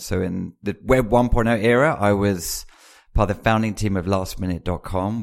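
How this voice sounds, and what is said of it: British accent. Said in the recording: “as you can tell from the accent, I was born in the UK.”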